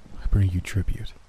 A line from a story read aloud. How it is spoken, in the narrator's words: Taking a deep breath, I whispered